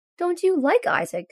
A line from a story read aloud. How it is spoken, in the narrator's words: Scott asks sadly